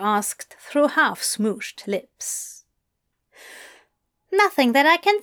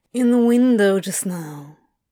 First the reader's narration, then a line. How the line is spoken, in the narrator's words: Crowley slurred sleepily